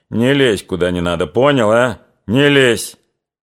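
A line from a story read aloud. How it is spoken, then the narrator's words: Stern repetition. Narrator (Russian): строго повторил Чубатый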